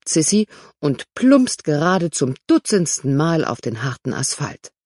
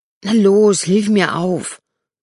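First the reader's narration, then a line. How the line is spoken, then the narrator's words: Snapping hiss. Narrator (German): faucht sie Robert an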